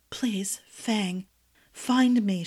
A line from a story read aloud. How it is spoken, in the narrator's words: whispered, and even that effort at speaking hurt